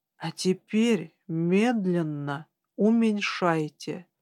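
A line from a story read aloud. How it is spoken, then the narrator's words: Quiet. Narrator (Russian): тихо произнес Хелик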